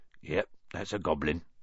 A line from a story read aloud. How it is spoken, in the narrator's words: said Hagrid quietly